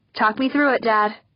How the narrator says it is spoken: she called out

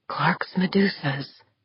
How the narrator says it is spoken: Corvus murmured

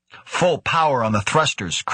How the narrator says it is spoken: Krebs snapped

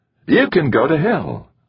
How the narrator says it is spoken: Goodbar said cheerfully

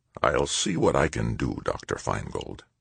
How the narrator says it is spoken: he said softly

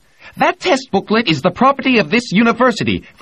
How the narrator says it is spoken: Ferraro yelled

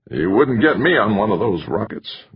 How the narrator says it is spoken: grumbled the white-haired man

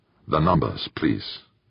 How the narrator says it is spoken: Nobu said softly

